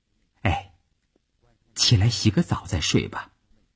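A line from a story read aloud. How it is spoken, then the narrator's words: Soft voice. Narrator (Chinese): 他轻声地说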